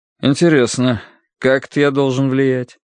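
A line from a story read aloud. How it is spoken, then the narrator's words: Bored question. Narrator (Russian): скучным голосом спросил Корнеевич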